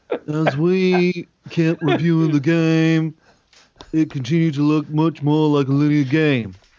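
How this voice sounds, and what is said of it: Cartoon teacher character voice. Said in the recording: “You sound like the teacher from South Park.”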